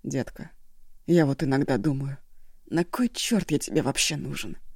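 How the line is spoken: Sad question. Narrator (Russian): Печально спросила Шосси

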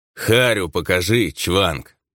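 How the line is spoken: Contemptuous mutter through teeth. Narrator (Russian): пренебрежительно процедил мужик

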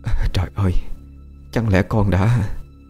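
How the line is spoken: Stunned trembling old nurse. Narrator (Vietnamese): Trước ánh mắt sững sờ của bà, bà vú run run hỏi lại cô

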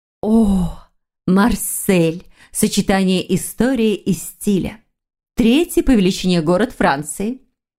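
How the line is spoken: Enthusiastic narration. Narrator (Russian): Восторженно повествовала Вера

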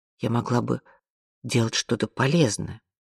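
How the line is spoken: Quiet. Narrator (Russian): тихо произнесла она

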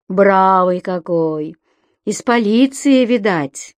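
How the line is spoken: Regretful drawl. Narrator (Russian): протянул Векшин с сожалением за друга, оступившегося в такую бездну

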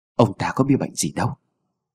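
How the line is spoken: Very quiet, hushed. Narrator (Vietnamese): lão ta cũng chỉ dám nói rất khẽ với Mụ Tâm

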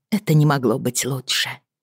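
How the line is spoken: Quiet. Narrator (Russian): тихо закончила Бриана

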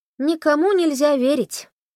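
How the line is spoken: Sigh. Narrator (Russian): вздохнула Тесса

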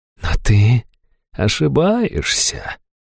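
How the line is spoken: Silky whisper. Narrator (Russian): вкрадчиво шепнула Хайту

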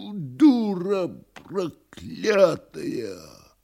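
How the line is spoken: Wheezing rage. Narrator (Russian): хрипя

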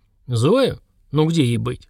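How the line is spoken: Calm man's reply. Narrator (Russian): спокойно ответил мужчина

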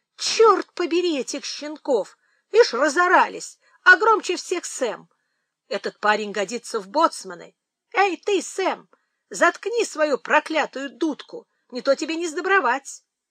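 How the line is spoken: Exclaiming over noise. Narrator (Russian): когда совсем уж нестерпимы стали топот и крики в коридоре, мистер Прайс воскликнул

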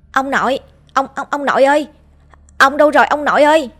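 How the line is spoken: Shouting. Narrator (Vietnamese): Tôi hét lên

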